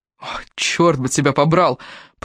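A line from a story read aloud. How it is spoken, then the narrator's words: Grumble with suppressed smile. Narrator (Russian): проворчал Энтони, не в силах, однако, сдержать улыбки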